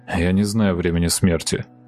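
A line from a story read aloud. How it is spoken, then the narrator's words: Tired. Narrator (Russian): устало сказал я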